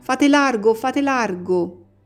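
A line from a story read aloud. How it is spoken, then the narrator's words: Man's shout. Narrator (Italian): Una voce d'uomo grida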